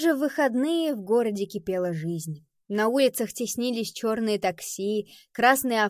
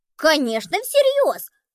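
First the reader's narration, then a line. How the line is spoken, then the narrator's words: Exclaimed. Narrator (Russian): воскликнул Пабло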